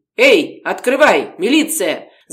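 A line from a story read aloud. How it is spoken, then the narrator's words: Shouting. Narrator (Russian): закричал один из милиционеров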